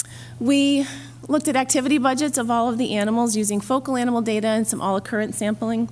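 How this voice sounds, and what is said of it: Strained, failing voice. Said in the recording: “excuse me, I'm losing my voice, I apologize.”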